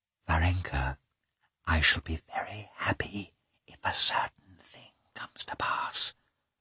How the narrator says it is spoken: she whispered

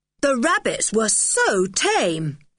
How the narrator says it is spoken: said Julian loudly

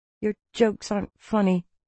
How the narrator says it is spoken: I muttered

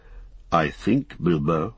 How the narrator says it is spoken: he said quietly

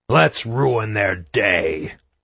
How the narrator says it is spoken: he growled

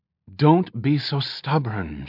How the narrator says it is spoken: she pleaded softly

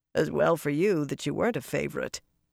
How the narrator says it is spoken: Yukiri said dryly

